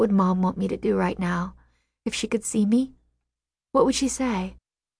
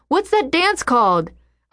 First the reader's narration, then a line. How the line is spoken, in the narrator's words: Jack shouts